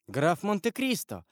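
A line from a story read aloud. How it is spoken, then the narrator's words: Joyful exclamation. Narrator (Russian): воскликнула она с искренней радостью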